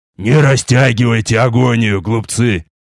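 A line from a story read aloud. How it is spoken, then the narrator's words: Furious growl. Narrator (Russian): прорычал я, свирепея от упорности их сопротивления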